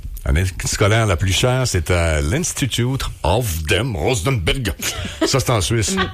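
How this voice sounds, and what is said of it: Put-on German accent. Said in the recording (French): “merci pour l'accent allemand”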